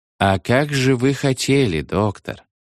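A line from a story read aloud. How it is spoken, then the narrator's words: Patronizing. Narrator (Russian): покровительственным тоном заговорил Лэшер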